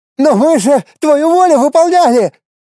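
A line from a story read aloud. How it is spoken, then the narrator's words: Priest shouting. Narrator (Russian): закричал священник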